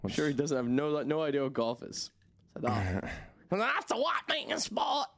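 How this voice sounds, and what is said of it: Imitates another person's voice, poorly. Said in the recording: “It's my Lil Wayne impression. ... Horrible.”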